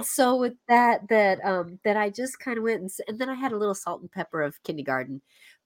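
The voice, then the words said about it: Congested, slightly off voice. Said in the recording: “my voice is kind of gone a little bit off ... you sound a bit congested ... I'm a little congested”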